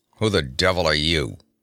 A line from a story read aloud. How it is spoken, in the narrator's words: he growled